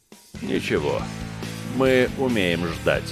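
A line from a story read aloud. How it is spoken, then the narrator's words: Soft shadowy voice. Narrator (Russian): мягко произнес теневой гость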